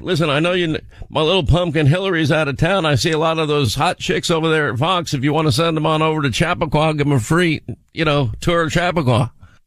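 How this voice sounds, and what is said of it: Bill Clinton impression. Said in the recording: “I could do Bill Clinton. ... I love your Clinton.”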